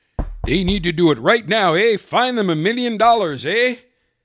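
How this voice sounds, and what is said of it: Mock Canadian accent. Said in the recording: “In his Canadian accent.”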